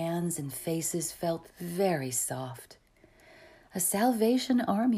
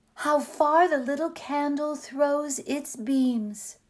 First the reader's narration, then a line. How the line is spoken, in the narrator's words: she exclaimed